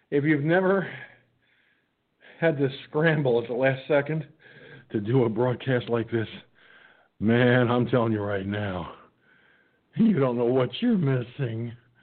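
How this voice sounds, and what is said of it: Slightly out of breath. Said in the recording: “just a little out of breath. Not much, though.”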